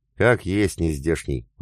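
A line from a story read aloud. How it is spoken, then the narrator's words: Sighing. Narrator (Russian): вздохнула Алена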